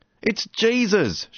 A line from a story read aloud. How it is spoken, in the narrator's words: shouted Brian